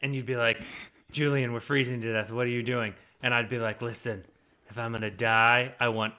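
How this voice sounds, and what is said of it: Usual voice. Nothing is said of it.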